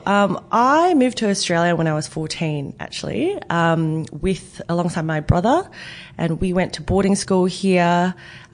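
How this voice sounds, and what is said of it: Australian accent. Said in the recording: “I do have an Aussie accent and sometimes sound Kiwi as well.”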